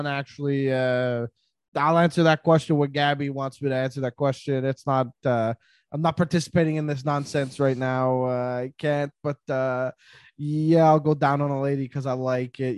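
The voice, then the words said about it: Imitates another person's voice. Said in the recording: “where that impression came from because it's not even close to him”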